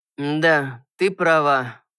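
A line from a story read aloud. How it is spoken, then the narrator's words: Tired. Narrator (Russian): устало произнес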